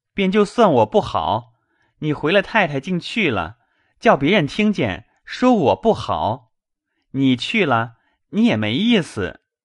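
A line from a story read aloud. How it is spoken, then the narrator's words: Laughing. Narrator (Chinese): 宝玉笑道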